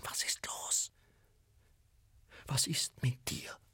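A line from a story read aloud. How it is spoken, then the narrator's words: Whisper. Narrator (German): flüsterte sie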